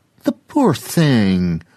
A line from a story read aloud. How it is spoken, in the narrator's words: another person called out